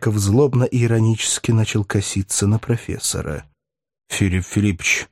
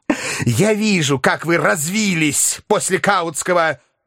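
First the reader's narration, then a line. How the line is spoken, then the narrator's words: Shrill angry shout. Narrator (Russian): визгливо крикнул Филипп Филиппович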